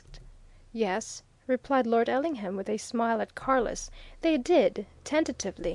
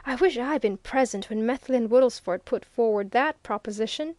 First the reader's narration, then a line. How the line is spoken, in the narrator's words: exclaimed the old lawyer